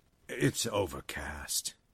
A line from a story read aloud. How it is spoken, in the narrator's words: he mumbled tiredly